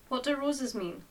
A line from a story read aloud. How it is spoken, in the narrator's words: Linda asked